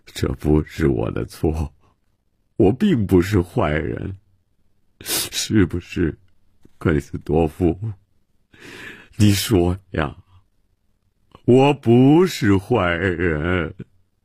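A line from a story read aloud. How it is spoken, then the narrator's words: Self-pitying lament. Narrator (Chinese): 曼西沃自怨自叹地说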